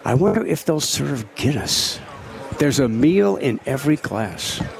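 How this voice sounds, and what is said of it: Put-on accent. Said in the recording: “You going to do that accent the whole time?”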